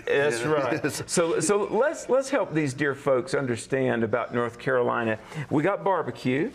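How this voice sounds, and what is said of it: Southern American accent. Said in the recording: “me and my Southern accent”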